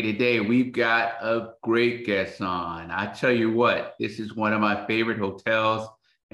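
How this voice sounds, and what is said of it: Excited, enthusiastic voice. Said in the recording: “you can tell the excitement in my voice.”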